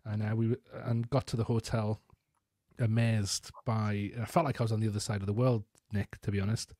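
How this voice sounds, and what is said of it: Northern English Geordie-like accent. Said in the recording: “in my northern English accent... She recognized my accent from the show Geordie Shore”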